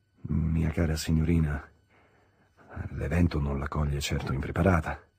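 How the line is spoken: Awkward murmur. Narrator (Italian): mormorò quasi impacciato

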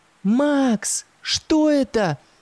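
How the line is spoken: Screaming. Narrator (Russian): завопила Юлька

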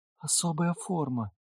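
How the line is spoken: Quiet whisper. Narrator (Russian): тихий шепот Алисы

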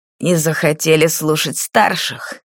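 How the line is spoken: Snakelike hiss. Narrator (Russian): змеей шипел Шальбе

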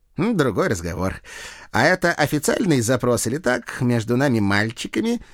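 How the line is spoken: Giggling. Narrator (Russian): хихикнул капрал

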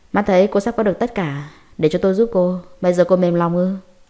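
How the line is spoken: Mocking, cold voice. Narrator (Vietnamese): trong giọng nói lộ ra chút châm chọc và lạnh lùng

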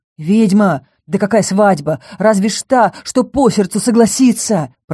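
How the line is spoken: Hissed. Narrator (Russian): прошипел

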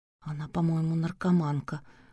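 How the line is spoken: Whisper. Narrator (Russian): прошептала Надя

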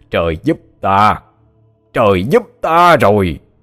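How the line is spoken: Loud laughing. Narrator (Vietnamese): Hắn đổi thái độ, ngửa mặt lên trời mà cười lớn

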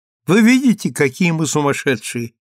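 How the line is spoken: Laughing, delighted. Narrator (Russian): сказала она, смеясь, сияя от удовольствия

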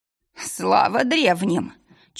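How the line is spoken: Tearful moan. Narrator (Russian): Чуть не плача, простонал хозяин таверны, тот самый Анжей

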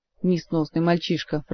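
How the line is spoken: Grumbling. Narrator (Russian): проворчал мэтр Алехандро

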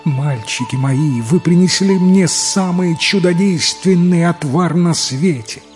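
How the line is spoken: Joyful tearful exclamation. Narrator (Russian): она со слезами счастья радостно воскликнула

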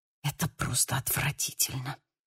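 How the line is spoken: Muttering. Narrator (Russian): пробормотала Анжела

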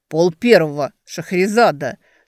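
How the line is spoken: Through gritted teeth. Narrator (Russian): Сквозь зубы произносит

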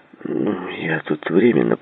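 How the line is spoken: Mutter. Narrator (Russian): пробормотал Джей

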